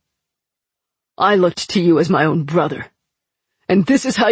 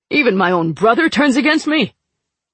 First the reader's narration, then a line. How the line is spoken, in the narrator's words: Prince Kant snapped